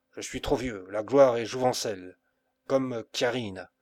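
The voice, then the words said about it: Grave, deep, trembling voice. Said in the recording (French): “son accent devint grave et profond ... Sa voix tremblait”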